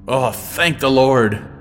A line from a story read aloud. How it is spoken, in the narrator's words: Granard exclaimed